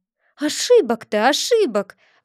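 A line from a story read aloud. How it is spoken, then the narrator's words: Exclaimed. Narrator (Russian): воскликнула учительница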